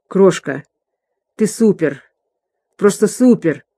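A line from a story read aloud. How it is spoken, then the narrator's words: Hoarse. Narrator (Russian): Тодд хрипло произнес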